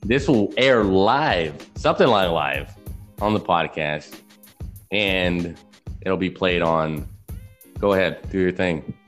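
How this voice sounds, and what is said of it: Southern American twang. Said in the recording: “hobo with a southern twang”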